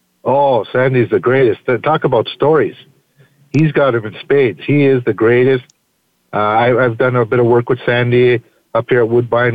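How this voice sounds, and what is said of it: Canadian accent. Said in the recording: “I hear your Canadian accent coming through”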